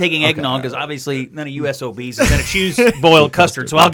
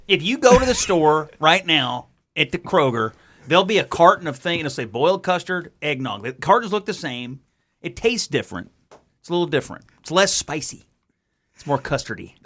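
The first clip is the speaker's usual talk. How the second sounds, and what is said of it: Imitates another person's voice. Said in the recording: “your Joe Arnold impersonation”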